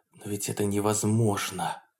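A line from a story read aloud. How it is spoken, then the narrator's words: Loud whisper. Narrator (Russian): прошептал Полунин так громко, что монашка оглянулась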